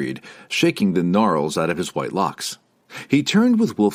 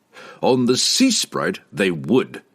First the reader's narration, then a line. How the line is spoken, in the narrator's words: roared the captain